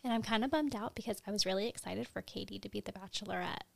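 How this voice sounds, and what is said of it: Quiet whispered speech. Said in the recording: “Why are you whispering? ... Yeah, a little bit.”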